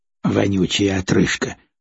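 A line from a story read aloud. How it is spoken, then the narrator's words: Muttered. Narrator (Russian): пробормотал бармен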